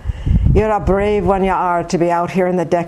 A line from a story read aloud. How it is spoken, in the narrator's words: he said in the thick brogue of the Irish peasant